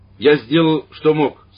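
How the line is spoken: Loud priest's voice. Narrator (Russian): сказал священник громко

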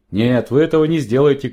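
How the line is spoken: Shouting. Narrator (Russian): крикнул Джонни

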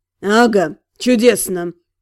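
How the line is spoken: Sighing. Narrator (Russian): Фарен вздохнул

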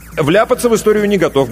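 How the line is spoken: Quick reply. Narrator (Russian): быстро ответил Иванов

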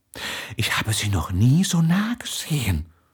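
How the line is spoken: Quiet reply. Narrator (German): erwiderte Spiegel leise

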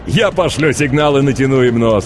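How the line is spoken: Laughing. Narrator (Russian): рассмеялся стилет

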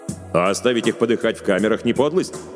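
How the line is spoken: Angry objection. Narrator (Russian): сердито возразил Хельмут

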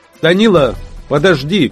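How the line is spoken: Father shouting. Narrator (Russian): крикнул отец

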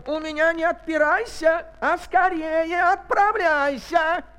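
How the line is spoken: Angry shout. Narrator (Russian): Царь со гневом закричал

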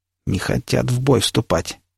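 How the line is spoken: Slightly smug mutter. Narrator (Russian): с легким самодовольством пробормотал Никита

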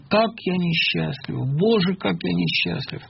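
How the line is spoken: Moaning. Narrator (Russian): простонал

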